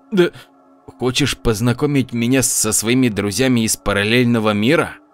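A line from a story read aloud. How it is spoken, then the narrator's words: Hissed. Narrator (Russian): Виталий прошипел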